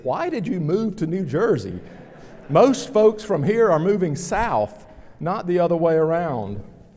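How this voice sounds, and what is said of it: Regional accent. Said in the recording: “the comments about my accent”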